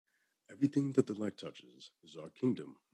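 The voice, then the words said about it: Deep imitated cartoon lion voice. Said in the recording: “I can do Mufasa's voice”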